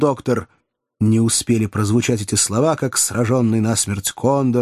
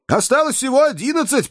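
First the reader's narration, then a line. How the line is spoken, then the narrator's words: Shouting. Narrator (Russian): прокричал Джо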